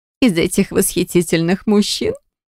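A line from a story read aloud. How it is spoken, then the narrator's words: Giggled. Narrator (Russian): Хихикнула третья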